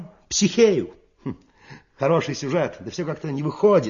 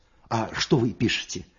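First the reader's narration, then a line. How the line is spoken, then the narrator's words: Plain question. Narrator (Russian): спросил Клочков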